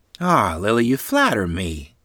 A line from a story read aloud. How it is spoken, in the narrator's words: Grandmother Barney happily replied